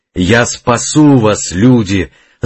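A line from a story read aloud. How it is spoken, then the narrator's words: Long powerful shout. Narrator (Russian): закричал он протяжно и мощно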